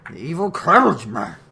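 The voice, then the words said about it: Loose-lipped silly dog-like character voice. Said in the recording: “can do the voice ... My dog voice was not as good as your dog voice ... make your lips really loose”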